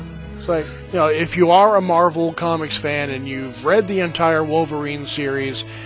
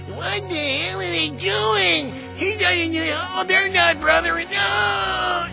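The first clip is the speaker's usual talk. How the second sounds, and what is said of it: Nerdy geek character voice. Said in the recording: “put on my geek voice.”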